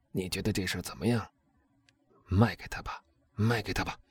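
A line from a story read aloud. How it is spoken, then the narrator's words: Low question. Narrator (Chinese): 他 低声问他的妻子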